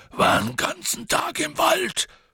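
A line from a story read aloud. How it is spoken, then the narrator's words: Panting. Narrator (German): keuchte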